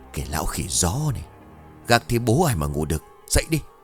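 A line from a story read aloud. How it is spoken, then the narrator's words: Grumbling. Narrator (Vietnamese): mụ cằn nhằn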